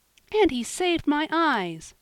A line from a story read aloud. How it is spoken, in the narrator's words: cried Polly, full of gratitude